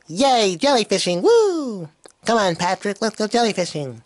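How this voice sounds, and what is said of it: Cartoon character voice. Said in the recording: “And this is SpongeBob.”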